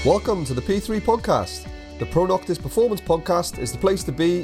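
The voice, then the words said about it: Welsh accent. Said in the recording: “fellow Welsh connection ... She's probably picked up on my accent ... being a proud Welshman myself”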